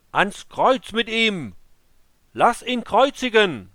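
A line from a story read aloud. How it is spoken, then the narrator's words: Screaming even louder. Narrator (German): sie schrie noch lauter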